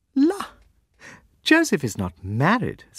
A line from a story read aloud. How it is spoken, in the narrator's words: said Amelia, laughing again